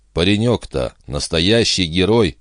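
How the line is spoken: Sighed. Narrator (Russian): вздохнула Бобби

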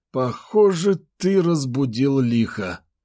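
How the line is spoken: Doomed exhale. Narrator (Russian): обреченно выдохнул Федор

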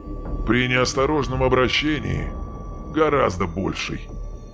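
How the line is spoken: Grim. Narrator (Russian): мрачно произнес Хан

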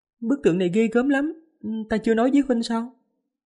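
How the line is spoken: Smiling. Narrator (Vietnamese): Kim Bình Nhi mỉm cười

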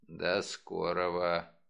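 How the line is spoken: Grumble. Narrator (Russian): проворчал Мегре

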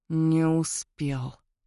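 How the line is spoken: Mumbling. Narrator (Russian): пробормотал Теодор

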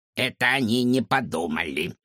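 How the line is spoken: Creaky voice. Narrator (Russian): проскрипела она

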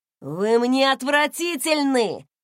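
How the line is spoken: Shouting. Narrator (Russian): крикнул он

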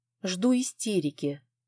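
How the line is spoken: Muttering. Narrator (Russian): пробормотала Элла

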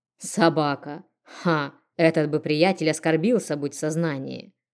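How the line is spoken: Snorted. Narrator (Russian): Хмыкнув

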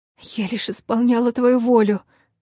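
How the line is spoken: Strained, forced out. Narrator (Russian): выдавила я

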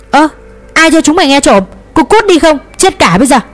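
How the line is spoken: Loud angry scolding. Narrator (Vietnamese): ông Châu gắt mắng ầm lên

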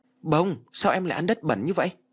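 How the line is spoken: Startled shout. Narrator (Vietnamese): Toàn giật mình quát

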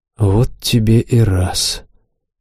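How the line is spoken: Quiet. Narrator (Russian): негромко сказал наш лидер

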